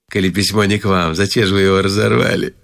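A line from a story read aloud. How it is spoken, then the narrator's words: Plain. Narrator (Russian): сказала мамзель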